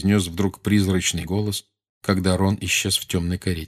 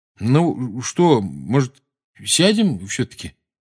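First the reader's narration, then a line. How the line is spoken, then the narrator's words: Uncertain suggestion. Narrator (Russian): неуверенно предложил Рон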